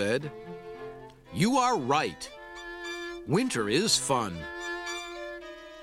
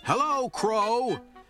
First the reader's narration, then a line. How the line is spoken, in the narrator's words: shouted Toad